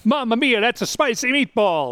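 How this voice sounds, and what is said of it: Exaggerated Italian-style accent. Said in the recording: “His accent reminds me of the commercial... your Mario Brothers accent”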